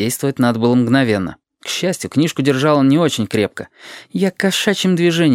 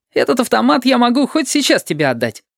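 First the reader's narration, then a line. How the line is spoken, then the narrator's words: Cheerful promise. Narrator (Russian): бодро пообещал Павлик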